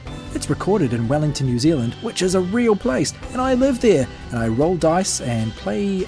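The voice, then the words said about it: New Zealand accent. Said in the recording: “people with New Zealand accents”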